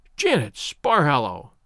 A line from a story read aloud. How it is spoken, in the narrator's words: she cried